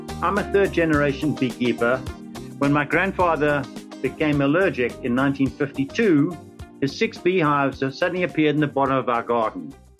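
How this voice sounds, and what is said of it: South African accent. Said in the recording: “This was in South Africa. Some of you may recognize from my accent.”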